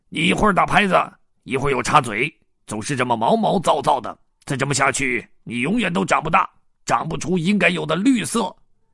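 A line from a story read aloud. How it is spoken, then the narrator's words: Loud complaining. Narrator (Chinese): 雷叔大声的抱怨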